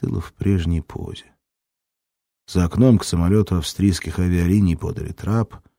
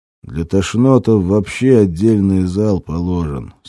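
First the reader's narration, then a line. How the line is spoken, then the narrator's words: Curt, through gritted teeth. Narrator (Russian): сквозь зубы бросил второй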